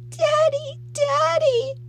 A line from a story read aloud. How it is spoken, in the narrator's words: Heather sobbed